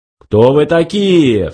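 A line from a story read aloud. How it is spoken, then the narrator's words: Menacing question. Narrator (Russian): грозно спросил Ланквилл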